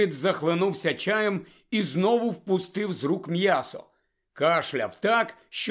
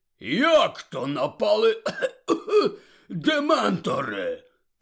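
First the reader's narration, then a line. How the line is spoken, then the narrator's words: Hoarse croak. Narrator (Ukrainian): прохрипів Гегріт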